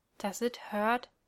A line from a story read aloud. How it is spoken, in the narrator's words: Sam asked, barely able to whisper the words